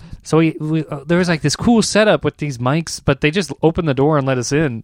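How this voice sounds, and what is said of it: Usual voice. Nothing is said of it.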